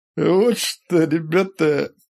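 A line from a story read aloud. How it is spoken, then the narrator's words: Hoarse wheeze. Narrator (Russian): просипел он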